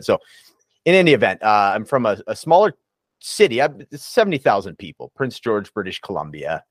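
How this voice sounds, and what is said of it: Canadian English accent. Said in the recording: “People say I have an accent ... oh, I can hear the Canadian accent.”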